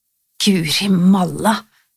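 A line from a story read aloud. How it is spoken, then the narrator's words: Emotional snort. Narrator (Norwegian): snøftet hun, og la all sin følelse i dette yndlingsuttrykket sitt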